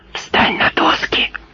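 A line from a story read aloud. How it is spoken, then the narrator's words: Hissed. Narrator (Russian): прошипел он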